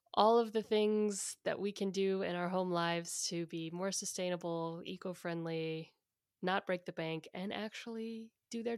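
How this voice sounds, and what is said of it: Husky voice with vocal fry. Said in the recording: “I'm going for a real husky jazz singer in a smoky club this week ... It's a lot of vocal fry”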